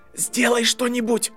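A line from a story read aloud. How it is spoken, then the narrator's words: Desperate whisper. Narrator (Russian): отчаянно шептал Драко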